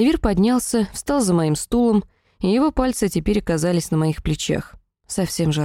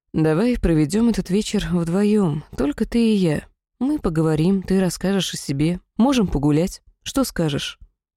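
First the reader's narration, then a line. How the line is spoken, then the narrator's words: Tender, affectionate. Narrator (Russian): Сиавир ласково произнес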